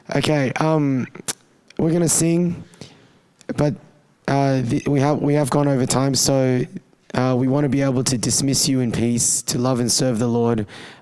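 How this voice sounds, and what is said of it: Hoarse, weak, strained voice. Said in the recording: “I'm not going to be able to talk. ... Sorry, this is not coronavirus. I just lost my voice from yesterday.”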